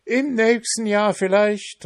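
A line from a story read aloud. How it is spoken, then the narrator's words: Called out. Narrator (German): rief der Pfannkuchen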